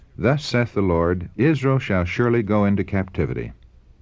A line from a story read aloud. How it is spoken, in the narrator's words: the prophet firmly responded